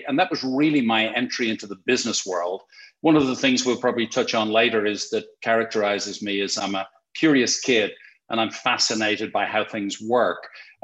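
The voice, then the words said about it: Irish Dublin accent. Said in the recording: “I born and raised in Dublin, in Ireland, thus the funny accent”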